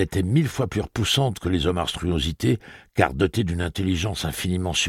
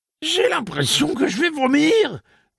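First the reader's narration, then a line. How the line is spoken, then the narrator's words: Cracking, breaking voice. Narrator (French): dit-il d'une voix qui muait d'un extrême à l'autre de son registre comme celle d'un jeune adolescent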